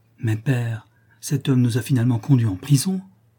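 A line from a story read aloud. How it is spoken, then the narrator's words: Girl exclaiming. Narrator (French): s'exclama la fille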